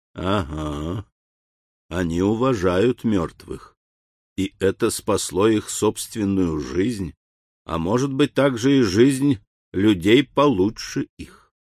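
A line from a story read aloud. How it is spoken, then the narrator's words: Clear whisper after deep sigh. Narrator (Russian): глубоко вздохнув, произнес внятным шепотом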